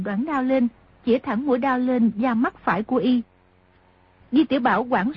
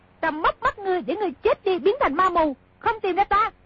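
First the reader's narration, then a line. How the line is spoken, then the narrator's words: Sharp shout. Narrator (Vietnamese): công chúa quát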